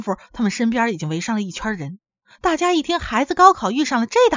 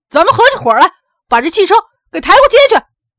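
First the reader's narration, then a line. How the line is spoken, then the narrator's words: Young man's thunderous roar. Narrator (Chinese): 一个小伙子春天打雷似的吼了一声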